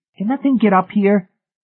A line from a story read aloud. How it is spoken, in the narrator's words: David Pritchett asked nervously